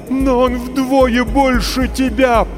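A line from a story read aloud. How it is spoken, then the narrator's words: Mother's terrified moan. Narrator (Russian): простонала мать, почти обезумев от ужаса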